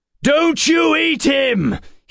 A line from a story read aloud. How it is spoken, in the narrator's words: he screeched over the PA